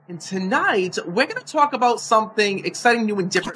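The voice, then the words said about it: Slight New Jersey accent. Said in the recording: “He got a little accent, a little Jersey accent.”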